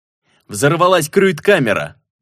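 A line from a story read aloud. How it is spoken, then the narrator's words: Shout. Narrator (Russian): крикнул я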